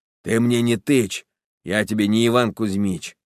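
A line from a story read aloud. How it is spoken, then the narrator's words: Hoarse bass, cutting off. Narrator (Russian): отчаянный обрывал хриплым басом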